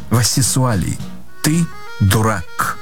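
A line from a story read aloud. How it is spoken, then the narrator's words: Calm reply. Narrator (Russian): Спокойно ответила жена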